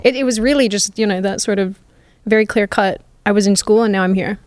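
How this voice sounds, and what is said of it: Hybrid Australian-American accent. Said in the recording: “my accent is just this disgusting hybrid ... I don't just sound like this because I'm imitating Americans badly ... this mashup”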